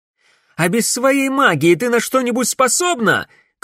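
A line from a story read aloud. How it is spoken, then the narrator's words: Shouting. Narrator (Russian): крикнула Камилла Селине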